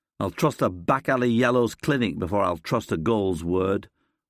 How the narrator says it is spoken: I sneer

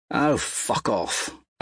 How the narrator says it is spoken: Atalantia mutters

